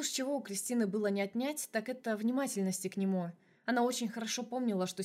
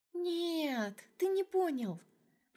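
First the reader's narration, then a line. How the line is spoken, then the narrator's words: Drawling. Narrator (Russian): протянула Крис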